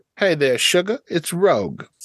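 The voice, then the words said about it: Put-on Southern accent, character voice. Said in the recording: “Can she do a southern accent? ... See, you could be her voice coach”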